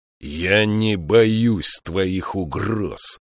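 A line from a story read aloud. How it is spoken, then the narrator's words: Growl. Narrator (Russian): прорычал Фиколми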